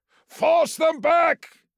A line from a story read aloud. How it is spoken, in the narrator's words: he roared